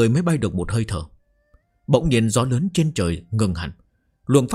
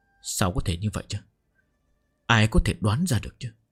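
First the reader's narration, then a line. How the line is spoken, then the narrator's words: Incredulous muttering, big man. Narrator (Vietnamese): Giang Bá Thanh trong thân thể to lớn, lầm bầm chửi rủa, khó tin nói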